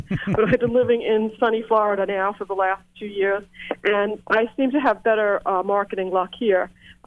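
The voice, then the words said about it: New York accent. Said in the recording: “I'm a New Yorker. I'm sure they can tell by my accent.”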